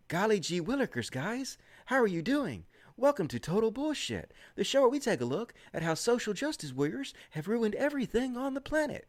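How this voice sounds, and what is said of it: Folksy old-fashioned wholesome imitation voice. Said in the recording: “I'm going to be doing my impression of him ... my imitation of that guy ... that's how he talks when he's on his videos. He talks like an episode from Leave It to Beaver, golly gee willikers”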